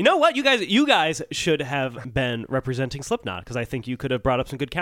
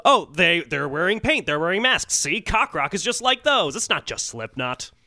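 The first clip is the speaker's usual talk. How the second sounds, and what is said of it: Comic lawyer character voice. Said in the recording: “my Burger King lawyer impression ... that character”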